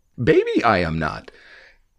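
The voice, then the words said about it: Poor impression of a character voice. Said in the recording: “that was a horrible impression”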